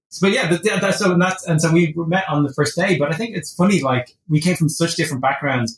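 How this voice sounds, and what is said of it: Irish accent. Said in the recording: “my accent. ... you're Irish ... you're not Scottish”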